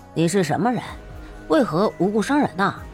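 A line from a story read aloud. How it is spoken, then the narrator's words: Calm, flat. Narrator (Chinese): 燕震淡淡的道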